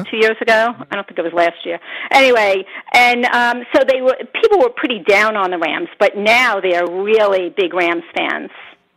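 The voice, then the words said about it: New York accent. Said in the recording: “we can hear the New York accent”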